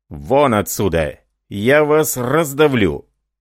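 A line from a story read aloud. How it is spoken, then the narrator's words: Furious man shouting. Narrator (Russian): Послышалось ворчание, и мужчина с неописуемым бешенством крикнул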